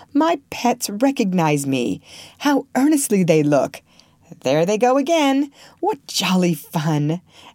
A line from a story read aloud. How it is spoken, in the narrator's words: he laughed outright